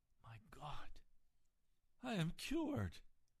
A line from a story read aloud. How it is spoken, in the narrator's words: in utter astonishment, he exclaimed in great astonishment